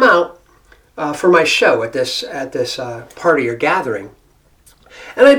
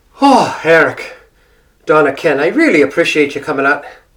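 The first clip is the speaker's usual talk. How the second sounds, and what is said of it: Irish brogue accent. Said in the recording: “I've been using the Irish brogue all day long ... I'm still speaking with the brogue ... I've been speaking with the Irish accent all day”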